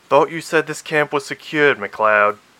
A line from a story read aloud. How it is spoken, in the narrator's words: Carradine snapped in her ear